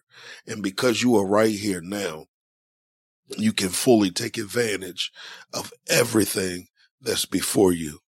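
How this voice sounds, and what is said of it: Hoarse, fading voice. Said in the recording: “I feel like I'm losing my voice.”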